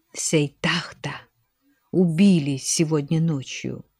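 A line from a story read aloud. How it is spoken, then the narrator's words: Whisper. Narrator (Russian): прошептал он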